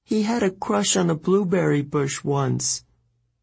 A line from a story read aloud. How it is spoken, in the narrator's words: Juniper said miserably